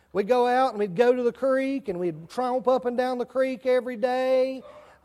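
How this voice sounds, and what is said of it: Rural country accent. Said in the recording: “that Lawndale country accent ... That's my Lawndale country accent coming out.”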